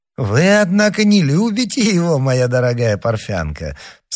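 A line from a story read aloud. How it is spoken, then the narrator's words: Laughing. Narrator (Russian): сказал, смеясь, Скарон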